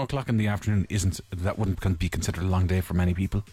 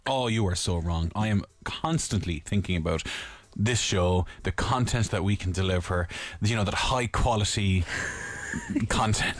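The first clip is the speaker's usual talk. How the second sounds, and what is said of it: Sarcastic delivery. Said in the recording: “Why do you sound sarcastic? ... Because I probably am being a little bit.”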